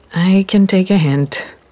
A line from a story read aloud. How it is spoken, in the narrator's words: sighed